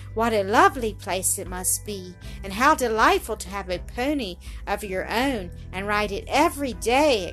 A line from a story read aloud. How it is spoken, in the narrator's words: exclaimed the latter